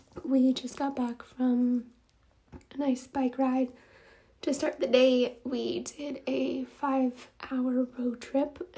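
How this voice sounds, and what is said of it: Slightly raspy voice. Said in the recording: “You might hear from my voice, I'm a little raspy.”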